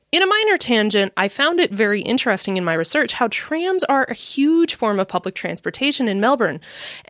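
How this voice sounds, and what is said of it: American Midwestern accent. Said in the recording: “given my accent, you can probably tell that I'm an American living in the Midwest”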